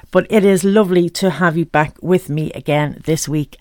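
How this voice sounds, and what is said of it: Congested, snuffly voice. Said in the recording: “I'm a bit bugged up. I have a cold in my toes. I'm a little bit snuffly today”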